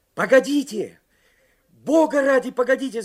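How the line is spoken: Shouted. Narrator (Russian): закричал Карсон

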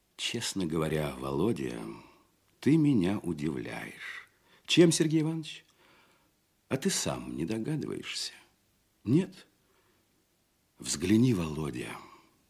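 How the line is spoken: Quiet and worried. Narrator (Russian): тихо и озабоченно говорил Казачок

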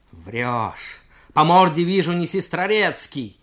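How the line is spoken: Yelling cadet. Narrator (Russian): заорал юнкер

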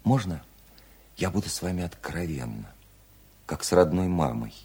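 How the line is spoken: Gentle question. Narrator (Russian): ласково спросила Вера

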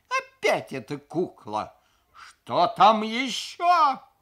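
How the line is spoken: Howl. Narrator (Russian): взвыл я

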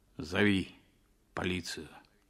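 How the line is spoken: Muffled, hollow voice. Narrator (Russian): сказал он глухо

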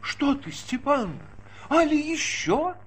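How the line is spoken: Sobbing reply. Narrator (Russian): разливаясь в рыданиях, ответила бывшая Дроздова

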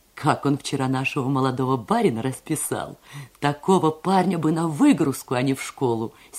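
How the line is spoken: Laughing speech. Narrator (Russian): смеясь говорила она

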